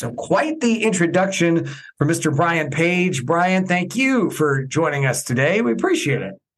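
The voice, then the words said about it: Polished radio announcer voice. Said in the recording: “has a radio voice ... has a great radio voice”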